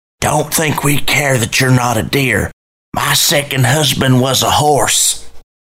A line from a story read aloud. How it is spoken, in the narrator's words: Darlene leaned over and told me in a too loud whisper